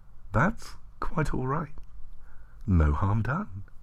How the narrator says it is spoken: she said, softly

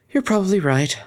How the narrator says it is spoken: Octavia sighed

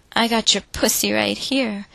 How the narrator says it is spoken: the stable boy proclaimed triumphantly

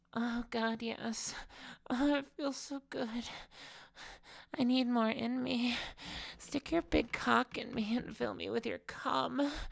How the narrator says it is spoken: she moaned through her orgasm

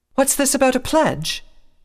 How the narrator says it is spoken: some pony called out

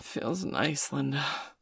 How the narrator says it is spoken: she breathed

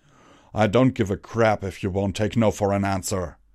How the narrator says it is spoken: he roared

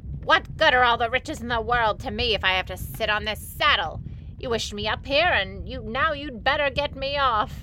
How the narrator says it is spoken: she yelled at him

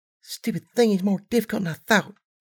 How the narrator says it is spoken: muttered to herself

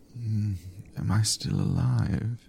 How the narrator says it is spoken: he asked, his voice thick with sleep

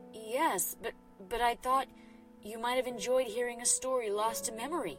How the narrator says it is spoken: the midnight mare stammered in her own defense

